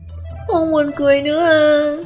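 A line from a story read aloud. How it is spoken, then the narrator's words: Child on the verge of tears. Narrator (Vietnamese): Tiểu Tứ Tử thấy Triệu Phổ không muốn, liền mếu máo nói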